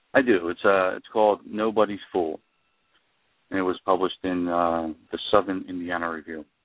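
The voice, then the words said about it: New Jersey accent. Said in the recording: “you're a writer from the West Coast, but you're really from Jersey ... I can hear your accent”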